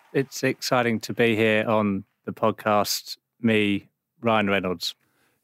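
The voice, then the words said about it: Poor Ryan Reynolds impression, no Canadian accent. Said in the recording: “It's not exactly Ryan Reynolds. ... You couldn't even get a Canadian accent”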